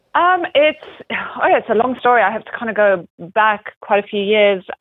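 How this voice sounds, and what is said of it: Mixed international accent. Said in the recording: “my accent's a little bit of a mixture of a little bit of everything ... It's such a beautiful accent.”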